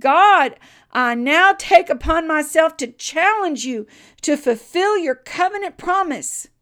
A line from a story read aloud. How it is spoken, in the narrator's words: a pause, and then he cried